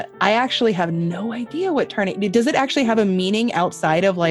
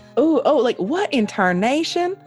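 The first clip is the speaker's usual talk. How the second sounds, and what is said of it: Poor put-on Southern accent. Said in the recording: “There's my shitty southern accent.”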